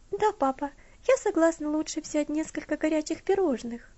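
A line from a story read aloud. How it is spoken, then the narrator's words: Timid request. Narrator (Russian): робко попросила Элси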